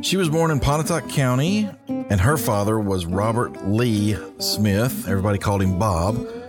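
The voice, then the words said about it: Southern drawl. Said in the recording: “That's my southern drawl coming out there.”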